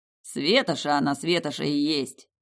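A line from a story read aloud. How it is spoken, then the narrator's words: Snorting. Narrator (Russian): хмыкнул Тиму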